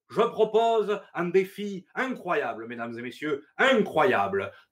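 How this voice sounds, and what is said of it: Hammed-up Fernandel-style Provençal accent. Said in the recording (French): “nous sort son plus bel accent ... ce Fernandel du pauvre”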